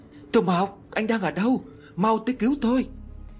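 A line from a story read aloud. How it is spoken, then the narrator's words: Terrified tearful scream. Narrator (Vietnamese): Nước mắt của tôi tuôn trào, gần như sắp bị dọa chết thì cố gắng hết sức để hét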